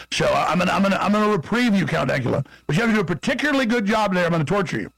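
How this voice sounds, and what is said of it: Texas accent. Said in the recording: “I'll do it in my real Texas accent.”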